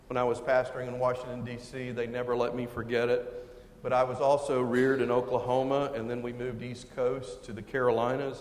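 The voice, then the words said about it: Texan accent. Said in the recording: “I hail from Texas. You may hear it in the accent.”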